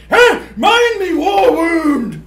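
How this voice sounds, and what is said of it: Put-on British accent. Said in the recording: “successfully did, a British accent”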